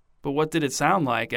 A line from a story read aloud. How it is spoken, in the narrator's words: asked Donna, her voice hushed and intense